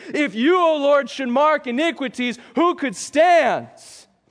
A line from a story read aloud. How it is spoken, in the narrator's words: hollered out by the one who was lashed and crushed for our iniquities